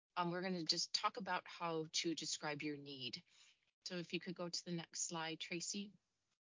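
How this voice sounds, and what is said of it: Voice affected by a cold. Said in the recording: “Excuse my voice. I'm on the tail end of a cold”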